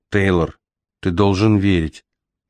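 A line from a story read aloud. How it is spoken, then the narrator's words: Gentle. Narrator (Russian): мягко произнес Мигель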